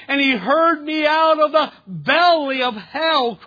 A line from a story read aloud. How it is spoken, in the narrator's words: cried I